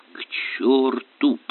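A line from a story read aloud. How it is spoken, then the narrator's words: Growl. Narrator (Russian): прорычал инспектор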